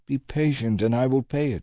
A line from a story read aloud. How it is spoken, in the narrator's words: he pleaded